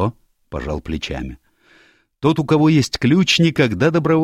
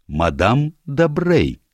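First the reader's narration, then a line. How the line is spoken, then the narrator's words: Plain. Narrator (Russian): сказал сыщик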